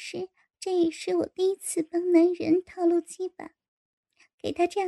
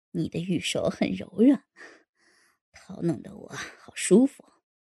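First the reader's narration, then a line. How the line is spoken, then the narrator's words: Breathless panting speech. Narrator (Chinese): 天上就不断的喘着气说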